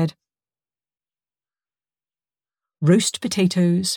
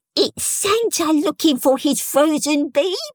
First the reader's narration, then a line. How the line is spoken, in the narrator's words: squeaked Toby